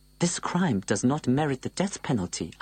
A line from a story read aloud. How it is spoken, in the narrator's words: exclaimed as soon as I could